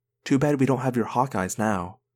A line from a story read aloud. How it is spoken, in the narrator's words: I whispered to Tobias